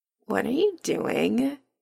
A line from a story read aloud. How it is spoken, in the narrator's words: Adam murmurs